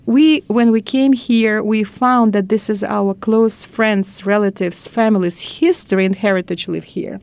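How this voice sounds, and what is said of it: Non-native English accent. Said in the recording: “my accent, of course, it's not my natural accent”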